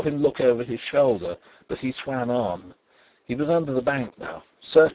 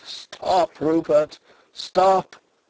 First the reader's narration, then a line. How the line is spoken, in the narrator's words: I cried